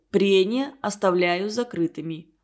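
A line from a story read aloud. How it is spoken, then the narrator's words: Wooden, flat voice. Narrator (Russian): произнес деревянным голосом академик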